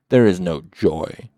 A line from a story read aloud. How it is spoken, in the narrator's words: shouted in an awful voice